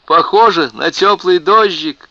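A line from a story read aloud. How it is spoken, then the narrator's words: Shouted. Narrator (Russian): крикнула Кэтрин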